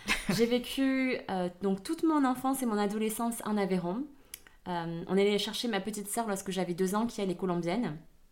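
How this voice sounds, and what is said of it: Southern French accent. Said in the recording (French): “On est dans le sud de la France. Ça s'entend d'ailleurs à mon accent.”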